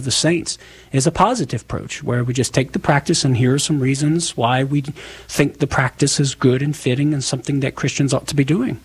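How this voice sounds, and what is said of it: Southern American accent. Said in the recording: “making fun of my southern accent.”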